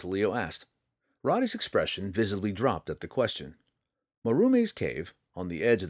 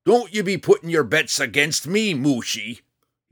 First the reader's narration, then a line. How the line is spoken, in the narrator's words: he roared back over his shoulder